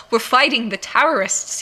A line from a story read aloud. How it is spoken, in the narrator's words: he snapped